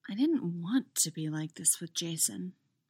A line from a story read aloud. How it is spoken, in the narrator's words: Chrissy murmurs